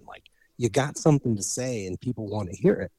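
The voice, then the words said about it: Imitates another person's voice. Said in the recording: “I'll do my Bradley Cooper imitation from A Star Is Born.”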